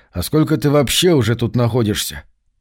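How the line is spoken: Mumbled. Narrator (Russian): пробормотал я

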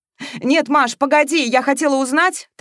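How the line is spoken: Rapid chatter over phone. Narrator (Russian): тараторила в трубку подруга

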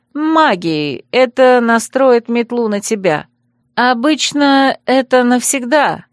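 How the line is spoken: Uncertain. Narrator (Russian): неуверенно добавляла

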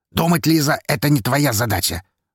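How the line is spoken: Rough interruption. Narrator (Russian): грубо перебил ее Павел

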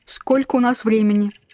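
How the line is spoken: Very calm sailor. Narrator (Russian): очень спокойным голосом спрашивает матрос

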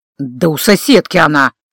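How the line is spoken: Irritated investigator grumbling. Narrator (Russian): раздраженно буркнул старший следователь

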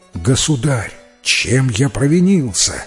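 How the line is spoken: Exclaimed. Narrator (Russian): воскликнул Салю

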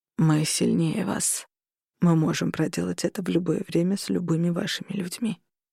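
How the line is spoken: Quiet. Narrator (Russian): тихо произнес Корнелиус

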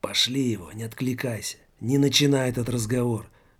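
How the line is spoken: Angry strangled whisper. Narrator (Russian): злобно произнес сдавленным шепотом в ухо Жоре-людоеду Жак

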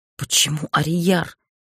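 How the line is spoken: Forced out. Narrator (Russian): выдавила я

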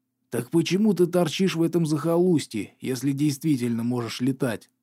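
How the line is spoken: Hoarse rasp. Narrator (Russian): прохрипел Кавендиш

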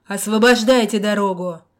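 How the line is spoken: Furious bark, flushed man. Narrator (Russian): рявкнул мужик, лицо которого налилось дурной кровью

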